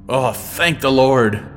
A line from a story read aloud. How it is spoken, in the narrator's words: Granard exclaimed